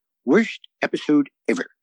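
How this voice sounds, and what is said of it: Comic Book Guy impression. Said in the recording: “your Comic Book Guy impression ... which is quite good”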